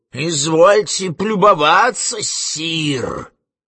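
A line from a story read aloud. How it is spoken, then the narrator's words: Indignant wheeze. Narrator (Russian): засипел он с негодованием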